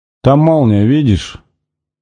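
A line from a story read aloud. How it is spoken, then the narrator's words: Irritated grumble. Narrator (Russian): буркнул он раздраженно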